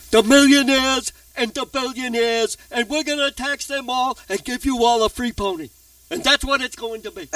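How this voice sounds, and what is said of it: Bernie Sanders impression. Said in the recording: “a Bernie Sanders type socialism ... you did a great imitation.”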